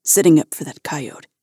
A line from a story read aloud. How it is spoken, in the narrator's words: he muttered